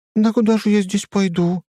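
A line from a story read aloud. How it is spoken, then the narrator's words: Frightened, smiling woman. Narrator (Russian): испуганно блондинка, улыбаясь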